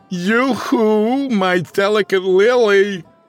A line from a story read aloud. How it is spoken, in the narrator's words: He yelled for everyone to hear